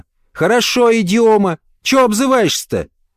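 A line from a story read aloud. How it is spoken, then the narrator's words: Yelling. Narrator (Russian): Понаехавшая заорала в мигающую кнопку громкой связи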